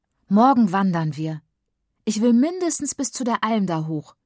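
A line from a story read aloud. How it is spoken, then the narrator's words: Call. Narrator (German): ruft sie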